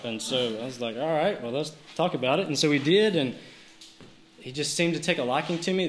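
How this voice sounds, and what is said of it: South Georgia Southern US accent. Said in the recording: “he quickly realized by my accent that I was from South Georgia”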